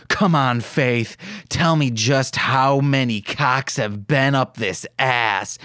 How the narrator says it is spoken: growled

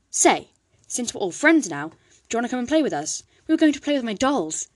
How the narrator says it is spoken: Talia said excitedly

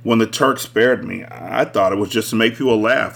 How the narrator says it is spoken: I chuckled

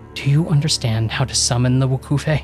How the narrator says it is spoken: She asked me anxiously

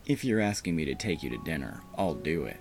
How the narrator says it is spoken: I said

